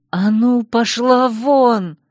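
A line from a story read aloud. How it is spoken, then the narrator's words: Hoarse rasp. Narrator (Russian): прохрипела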